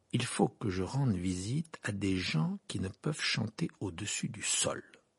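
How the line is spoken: Slow. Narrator (French): dit-il lentement

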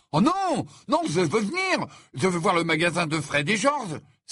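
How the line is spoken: Hasty exclamation. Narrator (French): s'exclama précipitamment Ron

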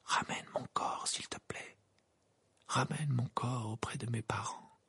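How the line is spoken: Murmuring figure. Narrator (French): murmura la silhouette de Cédric

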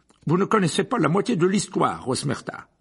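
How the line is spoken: Abrupt tone. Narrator (French): dit Fudge d'un ton abrupt

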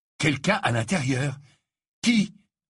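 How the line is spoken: Urgent question. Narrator (French): interrogea Harry d'une voix pressante

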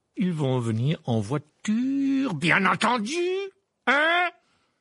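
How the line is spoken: Barking. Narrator (French): aboya l'oncle Vernon

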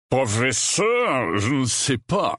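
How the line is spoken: Growled. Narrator (French): gronda la voix

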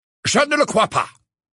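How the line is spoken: Brusque tone. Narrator (French): dit Phineas d'un ton brusque

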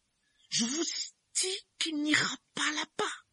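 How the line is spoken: Hissing voice. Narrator (French): dit-il d'une voix sifflante

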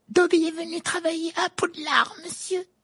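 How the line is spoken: Excited squeak, elf. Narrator (French): couina l'elfe d'un air tout excité

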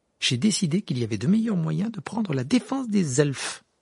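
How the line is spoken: Haughty retort. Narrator (French): répliqua Hermione d'un ton hautain

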